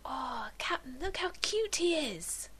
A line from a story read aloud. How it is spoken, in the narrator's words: Kaylee whispered behind him in what would have been a squeal if it weren't spoken so softly